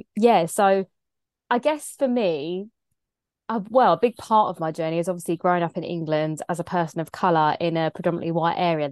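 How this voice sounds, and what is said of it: English accent. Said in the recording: “I've got an English accent because I'm from England”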